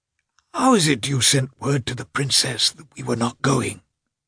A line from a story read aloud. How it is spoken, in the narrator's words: he said in an irritable whisper, his voice failing him